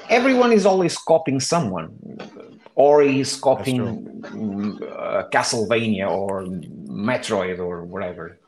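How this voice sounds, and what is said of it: Non-native English accent. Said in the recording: “sorry about my accent. If you don't understand something ... English is my like third language”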